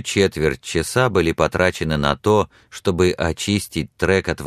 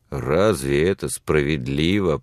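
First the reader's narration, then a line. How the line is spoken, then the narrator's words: Indignant grumble. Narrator (Russian): проворчал Билли с негодованием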